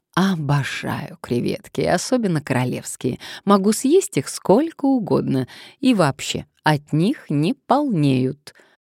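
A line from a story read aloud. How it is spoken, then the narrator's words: Purring. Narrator (Russian): она промурлыкала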